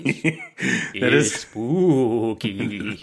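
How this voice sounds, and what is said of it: Bad put-on Transylvanian accent. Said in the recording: “I can do a voice ... a bad Transylvania accent”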